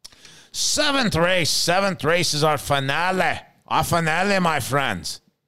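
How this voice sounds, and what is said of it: Attempted English accent, sounding Scottish. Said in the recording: “That was my English. ... It sounded more Scottish to me than anything.”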